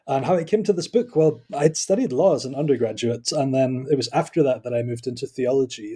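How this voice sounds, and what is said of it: Scottish accent. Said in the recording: “I am Scottish, as you can probably tell by my accent.”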